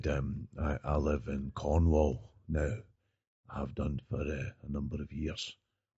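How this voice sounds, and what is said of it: Very deliberate speech imitating another person. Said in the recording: “he's got a very deliberate way of speaking ... it is an impersonation.”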